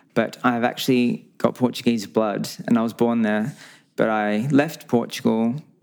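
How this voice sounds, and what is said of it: Australian accent. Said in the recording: “everyone knows me as the Australian guy ... you can probably tell by my accent.”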